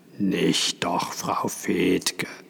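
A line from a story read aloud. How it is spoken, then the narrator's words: Hoarse male voice. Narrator (German): sagte er heiser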